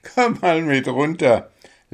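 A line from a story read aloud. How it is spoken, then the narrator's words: Laughing. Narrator (German): lachte Spitznäschen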